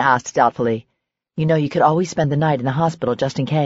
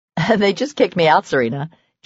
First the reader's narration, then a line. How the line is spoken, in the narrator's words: Julie said with a laugh